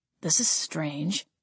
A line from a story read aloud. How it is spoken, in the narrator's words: Gabriel muttered